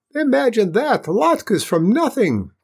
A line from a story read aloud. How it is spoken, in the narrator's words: cried Beryl Dunce